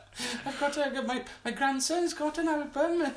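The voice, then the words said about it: Old lady voice. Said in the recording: “What's your best old lady voice?”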